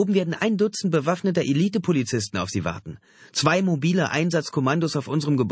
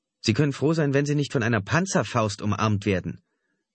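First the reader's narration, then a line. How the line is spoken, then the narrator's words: Plain. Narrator (German): antwortete Ira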